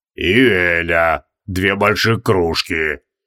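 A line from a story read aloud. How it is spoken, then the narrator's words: Deep bass voice. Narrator (Russian): пробасил пузатый колдун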